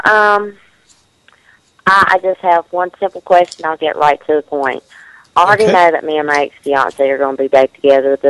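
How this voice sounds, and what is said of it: Regional accent. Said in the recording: “I love your accent.”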